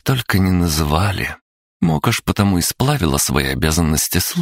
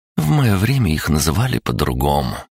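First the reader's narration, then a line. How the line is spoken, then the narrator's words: Sighing. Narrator (Russian): вздохнула Марена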